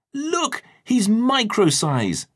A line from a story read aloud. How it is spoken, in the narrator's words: cried Max